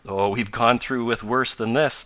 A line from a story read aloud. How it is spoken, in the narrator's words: laughed Tom